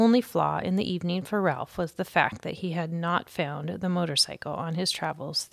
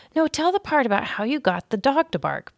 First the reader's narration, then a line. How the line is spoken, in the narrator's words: pleaded a third